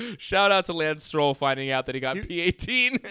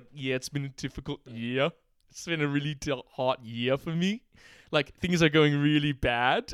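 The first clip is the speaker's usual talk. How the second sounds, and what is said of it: Imitates another person's voice. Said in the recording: “his impression of Ricardo”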